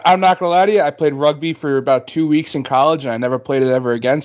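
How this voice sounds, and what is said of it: Boston accent. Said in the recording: “It sounds like a Boston kind of accent. ... You can talk with a Bostonian accent.”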